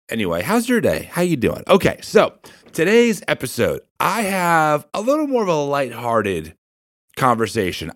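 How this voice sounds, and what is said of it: Weird-sounding, stuffy voice. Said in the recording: “my voice sounds weird, it's because I have allergies”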